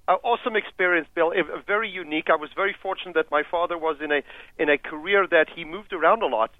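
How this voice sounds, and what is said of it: Kenyan African accent. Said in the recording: “your unusual African accent ... a Kenyan”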